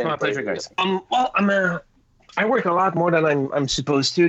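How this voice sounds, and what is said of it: French Canadian accent. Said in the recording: “my awesome French Canadian accent”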